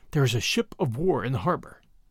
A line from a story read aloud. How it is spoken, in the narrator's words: Bradley answered in a whisper